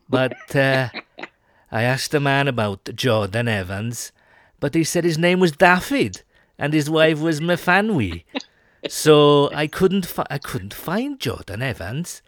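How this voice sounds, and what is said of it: Put-on Welsh accent. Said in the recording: “I was doing a Welsh accent, determined to nail a Welsh accent. And I think I've still got some way to go ... That's pretty good effort”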